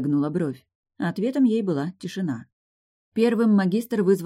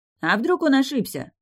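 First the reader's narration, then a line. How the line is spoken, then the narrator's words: Shout from the gallery. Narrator (Russian): крикнул кто-то с галерки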